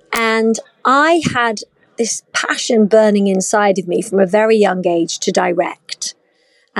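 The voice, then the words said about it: British accent. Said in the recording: “I'm obviously British. You can hear that from my accent.”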